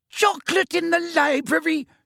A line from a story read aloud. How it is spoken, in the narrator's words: she screamed